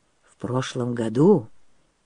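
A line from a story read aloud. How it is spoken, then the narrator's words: Soft, quiet. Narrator (Russian): тихонько заговорил он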